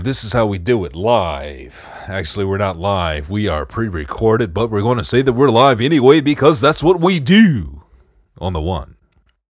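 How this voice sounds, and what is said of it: Radio DJ announcer voice. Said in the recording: “That was my radio DJ voice.”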